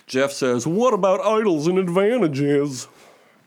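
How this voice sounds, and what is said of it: Imitates another person's voice. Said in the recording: “my Jeff impression”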